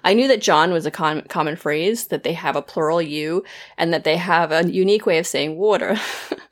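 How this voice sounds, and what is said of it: Weak attempt at Philadelphia accent. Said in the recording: “the Philly accent ... that was my bad attempt at that”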